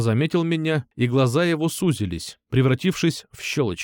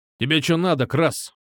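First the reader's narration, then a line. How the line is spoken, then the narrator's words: Angry growl. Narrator (Russian): Зло рыкнул он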